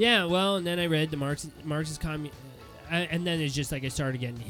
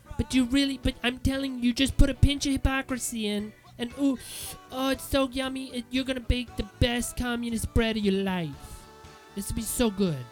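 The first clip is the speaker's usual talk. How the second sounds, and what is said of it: Shifting put-on accent, drifting Cuban. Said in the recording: “I don't know what accent that was or who that was. It kind of went like started one way and kind of was going Cuban there at the end.”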